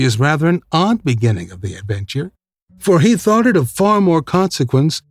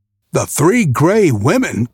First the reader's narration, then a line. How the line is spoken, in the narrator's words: cried Perseus